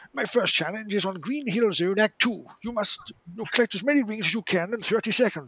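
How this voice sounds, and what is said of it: Bad Patrick Moore impression. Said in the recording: “it's a really bad Patrick Moore impression.”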